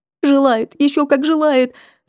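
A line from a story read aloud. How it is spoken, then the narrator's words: Woman wailing through tears. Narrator (Russian): запричитала женщина сквозь слезы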